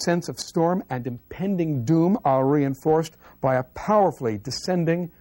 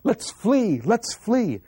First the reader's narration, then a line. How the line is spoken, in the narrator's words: the Cypriot women yell